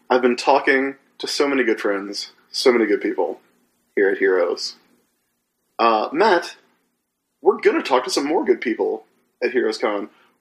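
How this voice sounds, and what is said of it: Slightly scratchy voice. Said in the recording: “You can tell from my voice that it's been a good show. It's been a little scratchy.”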